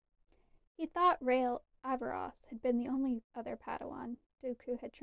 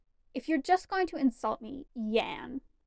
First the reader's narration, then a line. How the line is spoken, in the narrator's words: Fimor snapped